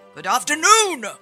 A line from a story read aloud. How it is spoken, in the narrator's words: Scrooge yelled